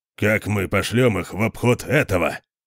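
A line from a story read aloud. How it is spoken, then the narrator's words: Grumbling. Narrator (Russian): проворчал Конан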